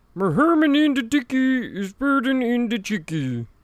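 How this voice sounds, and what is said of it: Muffled impression of movie character. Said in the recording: “it's just very muffled ... trying to do an impression of him”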